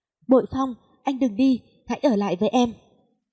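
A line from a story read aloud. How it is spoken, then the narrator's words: Desperate scream, woman. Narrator (Vietnamese): nàng mới quỵ xuống và hét lên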